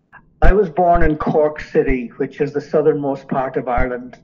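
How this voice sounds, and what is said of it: Irish accent with a lilt. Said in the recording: “the Irish lilt in your accent”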